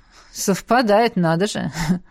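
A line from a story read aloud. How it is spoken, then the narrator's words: Wry snort. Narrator (Russian): хмыкнул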